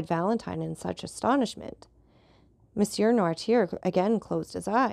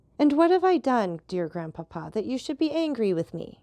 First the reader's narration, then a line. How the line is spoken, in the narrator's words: cried Valentine